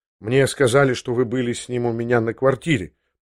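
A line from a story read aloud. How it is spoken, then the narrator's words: Embarrassed mumble. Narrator (Russian): пробормотал я в смущении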